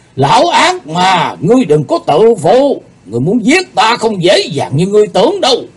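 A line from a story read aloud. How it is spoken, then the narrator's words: Angry shout. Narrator (Vietnamese): Thần Phong đạo nhân nhóm người lên giận dữ quát lên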